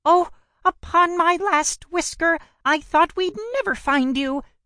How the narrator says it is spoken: cried with joy

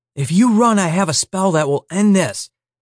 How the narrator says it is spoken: Chali shouted over the screeching

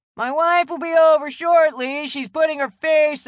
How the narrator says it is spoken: yelled over the sound of the saw

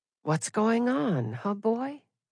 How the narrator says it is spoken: I said softly

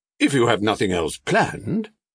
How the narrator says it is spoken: he added hastily

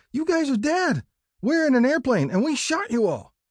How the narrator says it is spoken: We shouted

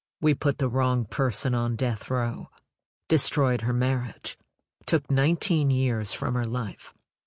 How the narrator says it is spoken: She said flatly

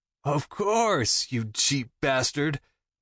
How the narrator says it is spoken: He throws his head back on a laugh

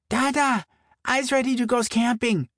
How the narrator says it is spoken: Mora breathlessly called to him from the living room

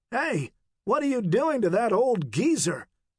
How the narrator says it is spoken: the big man said in a loud voice

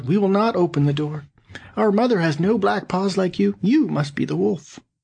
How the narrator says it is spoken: the kids, seeing this, cried out

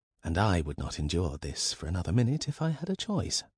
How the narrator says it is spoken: muttered Elizabeth

